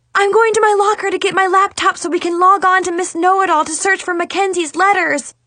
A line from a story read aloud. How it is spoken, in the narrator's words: I yelled over my shoulder